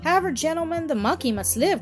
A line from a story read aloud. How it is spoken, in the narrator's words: cried Jack, a little maliciously